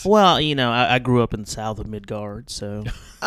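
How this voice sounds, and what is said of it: Put-on southern twang accent. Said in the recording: “You don't sound like the other guys... I have a little bit of a southern... a little twang”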